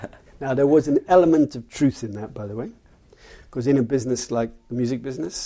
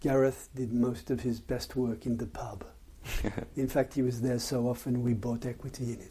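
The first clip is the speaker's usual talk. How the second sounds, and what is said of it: Imitated French accent. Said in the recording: “he was French, by the way, so you'll have to excuse my French accent.”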